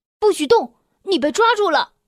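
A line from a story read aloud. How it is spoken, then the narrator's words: Desperate shouting. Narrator (Chinese): 我拼命的叫喊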